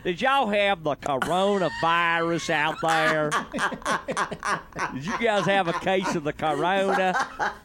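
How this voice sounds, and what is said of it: Put-on Texas accent. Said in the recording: “you do it with such a Texas accent ... This is not how ... usually sounds”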